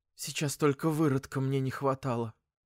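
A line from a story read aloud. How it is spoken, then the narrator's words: Mother whispering. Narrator (Russian): Мама шепнула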